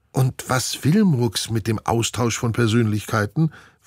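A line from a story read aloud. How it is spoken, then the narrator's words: Plain. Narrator (German): fragt Steffi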